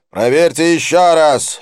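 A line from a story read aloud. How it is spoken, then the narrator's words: Sharp bark. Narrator (Russian): рявкнул Дилип молнией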